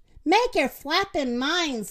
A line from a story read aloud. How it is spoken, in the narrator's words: the rooster yelled